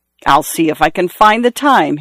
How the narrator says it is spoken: he replied in a surly voice

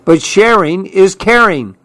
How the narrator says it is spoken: cried Clark

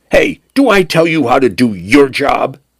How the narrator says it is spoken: Penn snapped

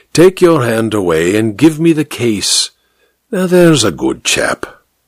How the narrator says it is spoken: added soothingly

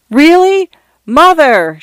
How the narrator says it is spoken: Shanta shouted

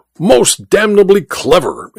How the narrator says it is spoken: exclaimed the Duke

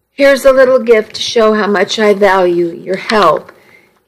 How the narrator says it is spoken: He stammered

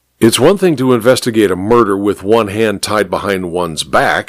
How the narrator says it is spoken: he grumbled unhappily

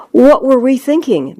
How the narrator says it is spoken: Minion 2 exclaims

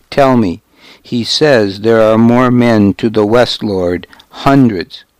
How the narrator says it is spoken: Godric went on until his voice faltered

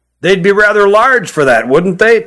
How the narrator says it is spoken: chuckled Hutt

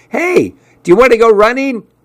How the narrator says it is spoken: he yelled out at me

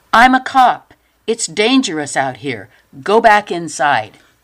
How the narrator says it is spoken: yelled

